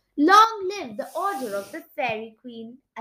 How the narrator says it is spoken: I shouted happily

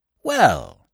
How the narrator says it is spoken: said old Netta cheerfully

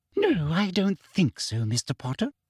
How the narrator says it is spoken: said Umbridge sweetly

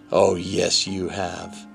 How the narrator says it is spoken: the horrible creature snarled and said

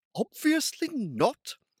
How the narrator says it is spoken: snapped Finn

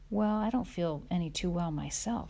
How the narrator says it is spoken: said Pa

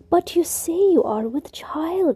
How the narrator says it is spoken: he cried, and in his wounded tone was the pain of a man who cannot believe his own anguish

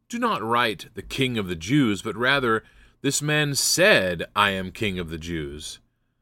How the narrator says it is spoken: Pilate answered

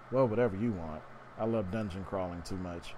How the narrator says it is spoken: Misaka chuckled

